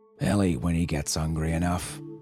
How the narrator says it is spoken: he growled

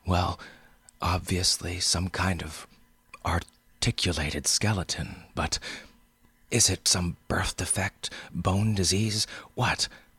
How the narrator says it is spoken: I was panting now

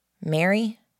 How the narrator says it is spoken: I asked

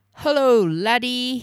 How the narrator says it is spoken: he boomed

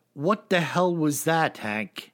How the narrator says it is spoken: he calmly said

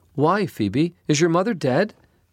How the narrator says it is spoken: Emma cried

